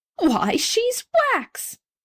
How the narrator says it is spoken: a middle-aged gentleman now exclaimed

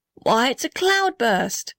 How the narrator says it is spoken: shouted the blue gum

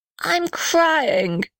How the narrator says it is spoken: sobbed the little red house

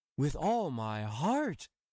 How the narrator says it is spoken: cried Hans

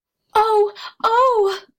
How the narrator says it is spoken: cried Benny

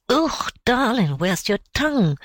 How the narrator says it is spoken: cried Mrs

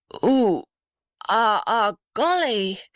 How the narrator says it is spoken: groaned the blue gum in a strange voice

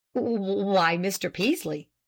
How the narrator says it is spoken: he stammered at last

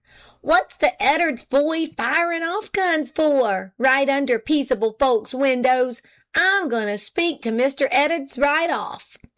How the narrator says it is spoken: she cried

